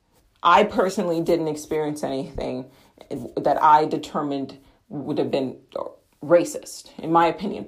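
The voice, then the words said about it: American accent. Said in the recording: “I am an American in England, so my accent”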